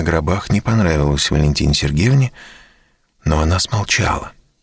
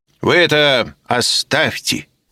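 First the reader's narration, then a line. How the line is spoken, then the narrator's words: Stern. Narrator (Russian): строго произнес он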